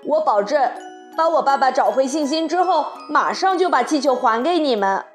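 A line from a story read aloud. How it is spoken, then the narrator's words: Shouting. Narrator (Chinese): 卡梅利多对蒙特戈菲尔兄弟喊道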